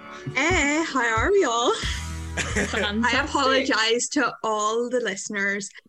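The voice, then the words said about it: Strong, hard-to-understand accent. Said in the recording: “any of the ones who can understand me for my accent”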